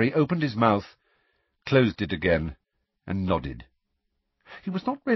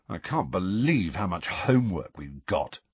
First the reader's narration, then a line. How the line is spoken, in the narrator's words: said Ron miserably